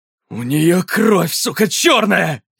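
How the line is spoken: Barking shout. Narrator (Russian): рявкнул Ксейден

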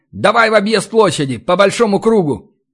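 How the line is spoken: Urgent shout. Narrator (Russian): понимая, что быстро нам не пробраться, и каждая секунда промедления может стоить жизни, крикнул Ори

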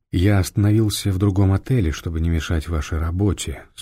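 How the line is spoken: Calm. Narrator (Russian): спокойно продолжил Фондорин

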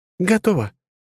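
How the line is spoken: Confident exclamation, young woman. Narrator (Russian): С уверенностью в глазах воскликнула девушка

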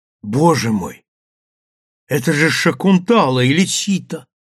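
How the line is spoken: Exclamation. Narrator (Russian): воскликнула Сандра

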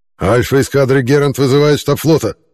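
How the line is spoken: Growled by leader. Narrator (Russian): прорычал старший вожак

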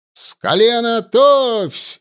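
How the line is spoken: Shouted command. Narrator (Russian): выкрикнул Егоров

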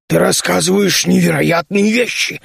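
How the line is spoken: Stunned exclamation. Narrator (Russian): ошарашенно воскликнул Нарг

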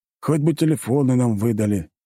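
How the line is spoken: Heavy sigh. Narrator (Russian): тяжело вздохнул полковник

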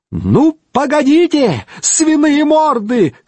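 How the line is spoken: Shouting in funny treble. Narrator (Russian): кричал он смешным дисконтом

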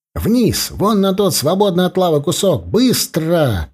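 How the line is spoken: Shout. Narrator (Russian): крикнул я товарищам

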